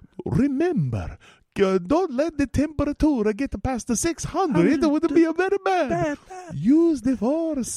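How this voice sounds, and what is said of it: Put-on Italian accent. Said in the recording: “that accent goes right out ... I'm only half Italian”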